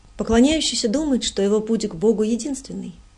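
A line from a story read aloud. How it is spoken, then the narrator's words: Plain. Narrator (Russian): сказал он мне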